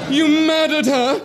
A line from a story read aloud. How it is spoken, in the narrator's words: he cried